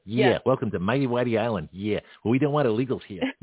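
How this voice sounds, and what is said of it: Put-on Boston accent. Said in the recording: “I'll do it in a Boston accent.”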